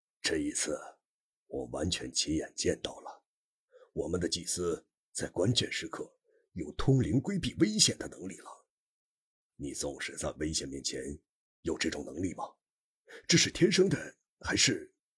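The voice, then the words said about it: Speaking quietly, in a low voice. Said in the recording (Chinese): “小声地说”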